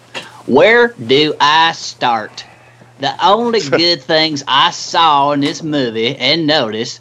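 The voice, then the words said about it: Put-on accent reading aloud. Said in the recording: “I feel like I got to read this one in an accent. I'm sorry if I offend anybody. I will do my best.”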